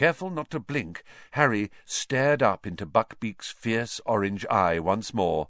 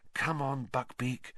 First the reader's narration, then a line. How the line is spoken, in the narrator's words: Harry murmured